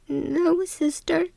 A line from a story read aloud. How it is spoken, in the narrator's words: in a quiet, shaky voice said